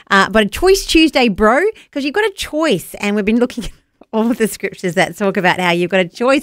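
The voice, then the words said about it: New Zealand accent. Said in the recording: “a bit of a Kiwi twang to it. Sorry, that's my accent.”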